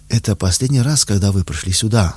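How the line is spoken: Plain. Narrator (Russian): сказала дама серая

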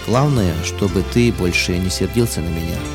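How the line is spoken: Quiet. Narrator (Russian): он тихо сказал

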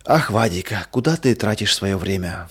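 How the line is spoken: Sighing mother. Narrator (Russian): вздохнула мама

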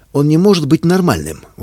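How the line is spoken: Indignant. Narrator (Russian): возмущенно сказала врач

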